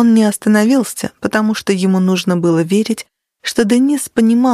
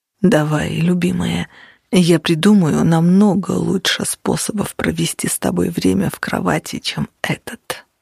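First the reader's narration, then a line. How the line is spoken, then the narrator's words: Low voice. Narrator (Russian): продолжал он низким голосом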